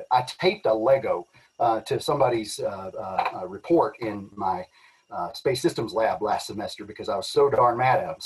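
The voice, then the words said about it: Southeast Texas accent. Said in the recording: “I've got this this accent that I've worked so hard to get to kind of tone down a little bit, but you know, you're kind of stuck with it whenever you have an accent like mine ... It doesn't make me sound like I'm from the trailer park ... I come from a really, really small little village in southeast Texas”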